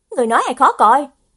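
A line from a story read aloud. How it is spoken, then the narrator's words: Angry. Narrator (Vietnamese): Ngụy Thanh Đồng tức giận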